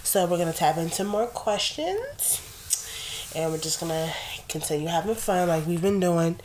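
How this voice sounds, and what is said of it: Congested, sore-throated voice. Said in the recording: “As you can probably hear in my voice, like, my cold has kind of calmed down ... I might have a sore throat, and I might have a stuffed up nose”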